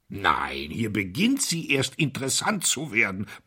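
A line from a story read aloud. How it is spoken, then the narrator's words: Grumbling. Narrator (German): brummte Pound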